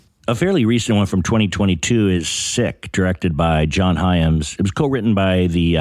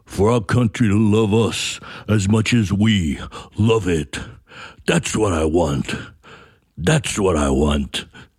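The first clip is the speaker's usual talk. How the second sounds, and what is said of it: Poor Sylvester Stallone impression. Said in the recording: “the horrible Stallone impersonation”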